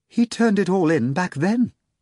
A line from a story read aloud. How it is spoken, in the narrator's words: Madame Dunchill replied nervously